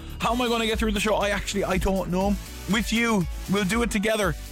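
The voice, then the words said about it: Tired, strained voice from shouting. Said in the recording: “a bit tired today. You can probably hear it in my voice. I was non-stop shouting ... I am wrecked”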